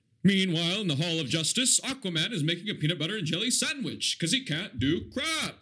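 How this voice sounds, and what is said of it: Booming TV announcer voice impression. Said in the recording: “the announcer with the booming voice introducing each episode ... your impersonation one more time of that announcer”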